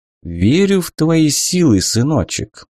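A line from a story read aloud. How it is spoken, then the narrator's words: Tender, affectionate. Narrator (Russian): так ласково по-домашнему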